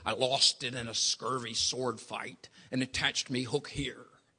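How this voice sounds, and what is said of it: Pirate character voice. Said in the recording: “my best pirate imitation.”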